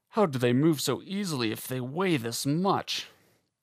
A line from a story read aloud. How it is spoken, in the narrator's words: He grunted